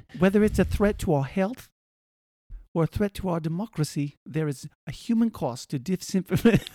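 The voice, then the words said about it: Poor put-on British accent. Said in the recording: “my awful accent. So all of our British listeners, I apologize... I can do an okay British accent, but that wasn't it... That wasn't an okay accent.”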